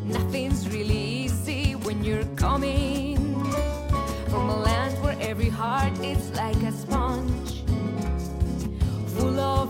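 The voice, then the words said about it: Colombian-accented English. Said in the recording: “I'm Colombian with an accent”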